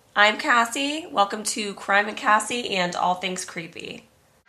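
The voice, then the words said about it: Sick, strained voice. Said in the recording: “The real crime today is my voice. I am sick yet again ... sorry about my voice”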